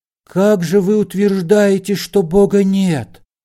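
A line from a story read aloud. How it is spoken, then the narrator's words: Warm, heartfelt voice. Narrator (Russian): начал Алоизий Морошек задушевным голосом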